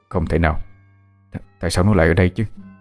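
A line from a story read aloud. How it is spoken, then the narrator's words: Muttering. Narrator (Vietnamese): Chú lẩm bẩm trong miệng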